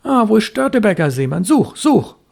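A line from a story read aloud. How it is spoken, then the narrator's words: Hasty call. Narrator (German): rief hastig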